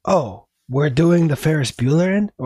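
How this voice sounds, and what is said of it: Put-on Spanish accent. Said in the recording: “why am I doing a Spanish accent?”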